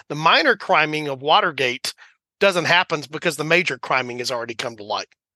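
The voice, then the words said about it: Texan accent, dropped G endings. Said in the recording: “now I'm dropping off the G with my Texan accent”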